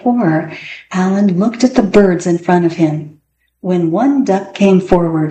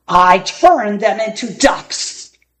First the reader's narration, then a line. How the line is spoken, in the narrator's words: bellowed Gasazi